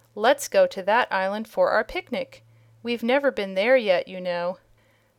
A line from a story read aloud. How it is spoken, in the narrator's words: she exclaimed